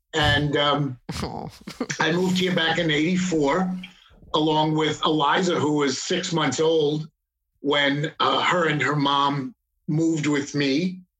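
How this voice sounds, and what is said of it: New York accent. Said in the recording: “I'm a ex-New Yorker, as you could detect by my accent.”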